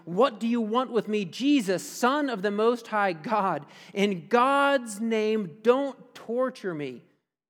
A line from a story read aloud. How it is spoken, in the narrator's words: He shouted at the top of his voice